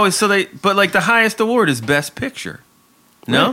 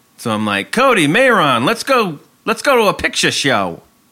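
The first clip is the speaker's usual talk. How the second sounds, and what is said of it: Old-timey put-on accent. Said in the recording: “That sounds kind of old-timey with that accent.”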